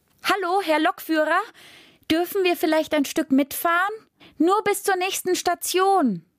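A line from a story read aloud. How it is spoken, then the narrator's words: Sudden shout. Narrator (German): schrie Rosa plötzlich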